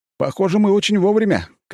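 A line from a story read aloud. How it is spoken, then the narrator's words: Shouted. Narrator (Russian): крикнул я Фирсову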